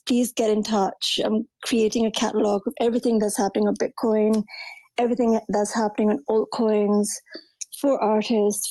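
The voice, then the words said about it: Strained, fading voice. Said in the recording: “I'm losing my voice as well.”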